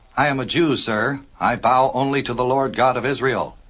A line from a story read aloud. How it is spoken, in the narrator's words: said Mordecai, mildly but in a very firm tone